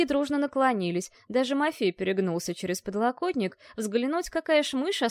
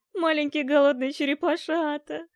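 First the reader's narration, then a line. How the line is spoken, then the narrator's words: Moaning. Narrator (Russian): простонал Ален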